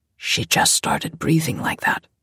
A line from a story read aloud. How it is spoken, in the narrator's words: Jose said quietly